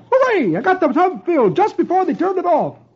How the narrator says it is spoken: he exclaims

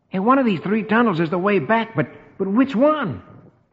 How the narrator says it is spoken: Rusty exclaims

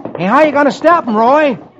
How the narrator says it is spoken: Tommy shouts

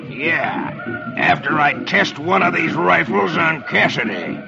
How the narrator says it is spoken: growls

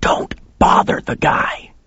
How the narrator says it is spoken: he hissed at me

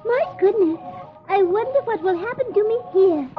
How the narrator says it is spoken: Alice exclaims

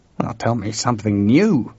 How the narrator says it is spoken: George growled

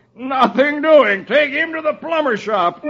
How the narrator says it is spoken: When the doctor sees Dagwood with a can in his head, he yells

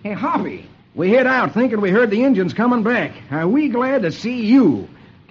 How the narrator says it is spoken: Lucky exclaims

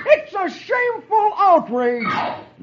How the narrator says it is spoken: shouts

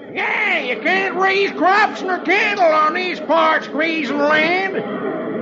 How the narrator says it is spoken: another hollers

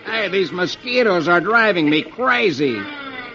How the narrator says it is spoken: Herb exclaims

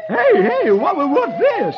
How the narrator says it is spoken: Br'er Fox exclaims

